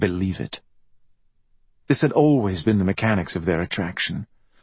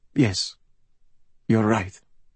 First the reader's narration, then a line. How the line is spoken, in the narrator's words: Pasquale could only mutter